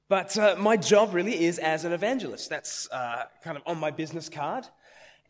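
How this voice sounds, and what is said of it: Mixed Australian and British accent. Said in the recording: “I have lived half my life in Australia, half my life in the UK, so I'm a little bit of a mongrel, and so is my accent”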